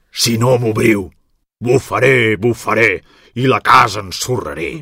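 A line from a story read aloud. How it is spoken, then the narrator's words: Growling wolf. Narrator (Catalan): va tornar a grunyir el llop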